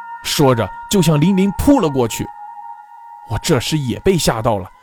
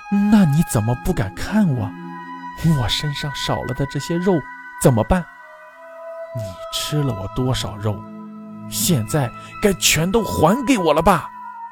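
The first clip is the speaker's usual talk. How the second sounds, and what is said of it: Shrill, sharp eerie voice. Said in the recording (Chinese): “仰天凄厉地笑了几声，又用尖锐的声音说”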